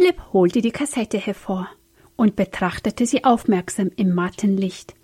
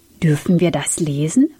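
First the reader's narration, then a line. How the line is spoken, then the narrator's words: Plain question. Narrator (German): fragte Sam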